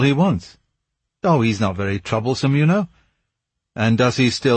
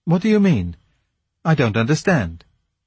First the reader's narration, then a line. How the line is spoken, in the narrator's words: asked, rather anxiously